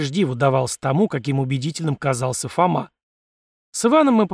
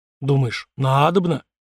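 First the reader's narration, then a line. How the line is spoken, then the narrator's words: Confused mutter, young man. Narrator (Russian): растерянно пробормотал парень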